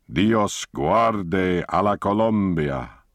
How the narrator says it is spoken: he boomed out the words

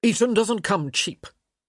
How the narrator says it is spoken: the Baron snapped

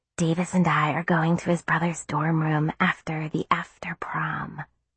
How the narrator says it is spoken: whispered to me

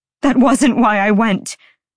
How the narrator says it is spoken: Bryce snapped

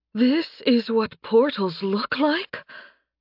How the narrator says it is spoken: Princess Charlotte gasped out

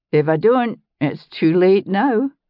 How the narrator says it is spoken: Ian said, laughing

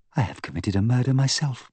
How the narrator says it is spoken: Lowering her voice, she said

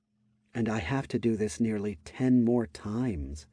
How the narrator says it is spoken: muttered to herself in her mind

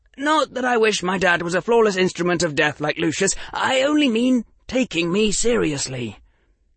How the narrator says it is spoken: Harry hastily added

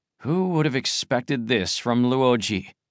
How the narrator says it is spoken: Tianming sighed

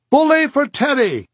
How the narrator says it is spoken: marchers shouted

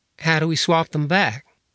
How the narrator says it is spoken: Cody sighed

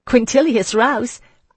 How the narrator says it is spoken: I laughed

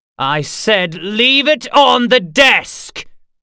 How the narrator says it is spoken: Gar shouted

